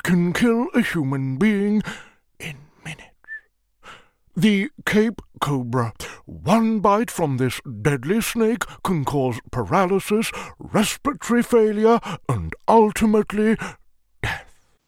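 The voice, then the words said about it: David Attenborough impression, whispery, rising-falling stress. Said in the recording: “that is immaculate ... your best impression ... the mouth position that you can't see, and the way I'm stressing certain words going up and then down, and don't forget the lovely whisper ... when a lot of people do David Attenborough, they just sort of tend to give him a whispery voice”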